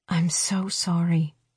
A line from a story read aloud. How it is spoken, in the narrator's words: she whispers